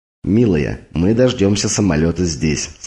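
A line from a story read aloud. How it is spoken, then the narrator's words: Plain. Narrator (Russian): сказал он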